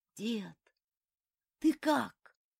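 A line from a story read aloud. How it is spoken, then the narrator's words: Hoarse call. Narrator (Russian): хрипло позвал он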